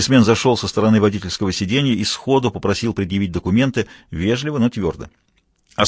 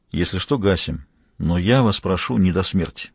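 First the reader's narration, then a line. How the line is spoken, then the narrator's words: Quiet. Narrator (Russian): Лаврик сказал тихонько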